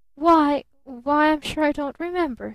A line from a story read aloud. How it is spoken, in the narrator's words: stammered her father